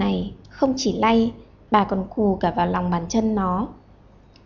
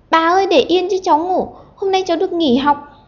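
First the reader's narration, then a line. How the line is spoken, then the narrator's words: Ticklish child shrieking. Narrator (Vietnamese): nhột quá, nó đành phải thét lên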